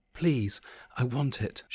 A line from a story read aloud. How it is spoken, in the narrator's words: she whispered softly